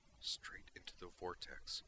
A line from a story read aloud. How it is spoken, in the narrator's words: she said quietly